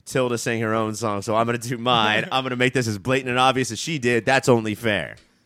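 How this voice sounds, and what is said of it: Imitates a rapper's voice. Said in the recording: “That was my Rakim imitation.”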